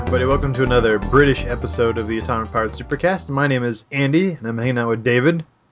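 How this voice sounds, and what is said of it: Stuffy, congested voice. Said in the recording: “I have a little bit of a cold, so I sound stuffy.”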